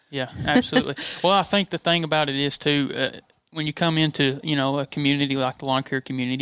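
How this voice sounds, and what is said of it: Tennessee Southern US accent. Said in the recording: “the Tennessee, the accent”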